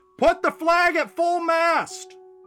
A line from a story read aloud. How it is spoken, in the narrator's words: one yelled